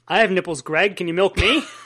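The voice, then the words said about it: Imitates another person's voice. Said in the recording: “my Robert De Niro impression ... Don't I sound just like him?”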